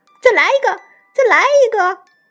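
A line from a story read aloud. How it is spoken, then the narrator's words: Goose calling out. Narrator (Chinese): 母鹅叫道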